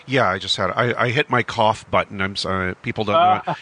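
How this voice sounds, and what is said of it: Slightly altered, cold-affected voice. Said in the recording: “I sound a little different because I'm getting over a cold”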